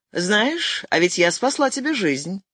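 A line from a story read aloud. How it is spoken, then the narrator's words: Relaxed tone. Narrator (Russian): сказала его собеседница свободным тоном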